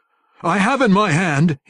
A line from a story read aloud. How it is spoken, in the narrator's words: he yelled